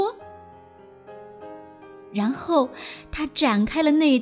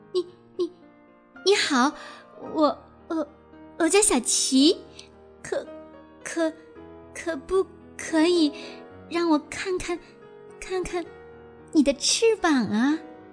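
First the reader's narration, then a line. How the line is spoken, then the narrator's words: Stammering. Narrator (Chinese): 达芬奇结结巴巴地说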